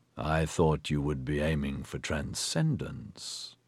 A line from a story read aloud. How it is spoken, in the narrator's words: Phelim said flatly